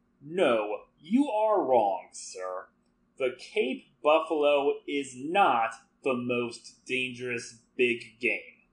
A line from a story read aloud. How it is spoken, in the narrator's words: he said slowly